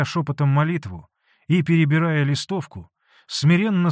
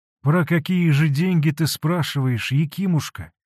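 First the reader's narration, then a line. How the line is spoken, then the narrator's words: Timid question. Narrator (Russian): робко спросил он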